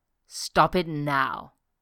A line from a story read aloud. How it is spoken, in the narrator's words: he growled